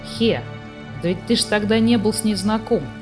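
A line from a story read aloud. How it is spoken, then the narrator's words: Plain. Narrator (Russian): сказал Сниф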